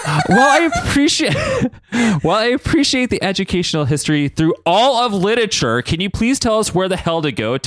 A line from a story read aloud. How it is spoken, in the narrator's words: Todd yelled